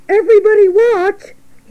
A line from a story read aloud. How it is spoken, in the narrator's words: cried